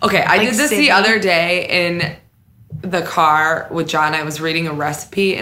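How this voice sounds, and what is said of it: Usual voice. Nothing is said of it.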